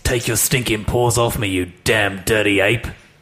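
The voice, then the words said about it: Impression of a film actor. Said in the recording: “I'm gonna read a famous quote, said by an actor, but I'm gonna read it as an impression, which I may or may not be able to do, by somebody else”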